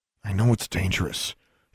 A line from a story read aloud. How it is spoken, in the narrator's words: she murmured